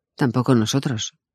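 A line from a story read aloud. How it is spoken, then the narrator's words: Dry, curt reply. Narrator (Spanish): dije secamente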